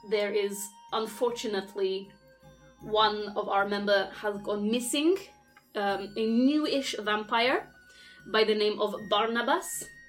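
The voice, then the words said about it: Strong foreign accent. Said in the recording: “My accent can be difficult to understand.”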